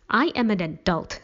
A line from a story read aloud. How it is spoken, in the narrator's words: Stevie snapped